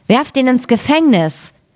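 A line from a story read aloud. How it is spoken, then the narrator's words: Angry shout. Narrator (German): wurde zornig darüber und rief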